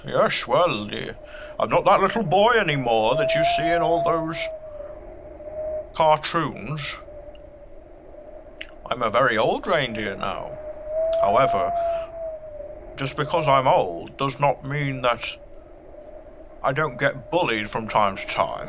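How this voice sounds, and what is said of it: Deep voice like an English Sean Connery. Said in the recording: “You sound a bit like an English Sean Connery”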